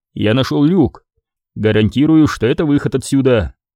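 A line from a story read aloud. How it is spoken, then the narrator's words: Confident reassuring declaration. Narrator (Russian): уверенным голосом заявил Крис, дабы не обрекать Шеву на мысли о безнадежности их положения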